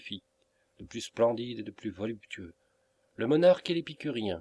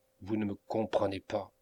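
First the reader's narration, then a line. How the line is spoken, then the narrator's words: Coldly satirical repetition. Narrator (French): répéta Melmotte avec un air froidement satirique, qui contrastait effroyablement avec la brûlante intelligence qui brillait dans ses yeux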